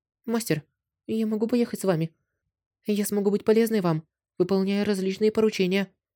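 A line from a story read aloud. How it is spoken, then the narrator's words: Timid question. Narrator (Russian): Робко спросила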